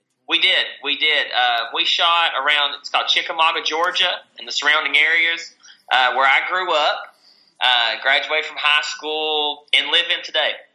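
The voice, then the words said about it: Southern American accent. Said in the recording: “You guys want to hear southern accents ... I love the accent.”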